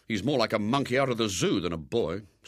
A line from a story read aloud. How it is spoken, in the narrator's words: said William bitterly